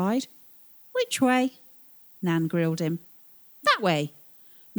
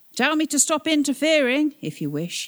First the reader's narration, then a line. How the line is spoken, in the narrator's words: he called out